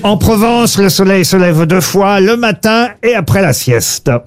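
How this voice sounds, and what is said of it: Slight put-on southern French accent. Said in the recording (French): “vous avez utilisé un petit accent ... puisque ça parle du midi en Provence”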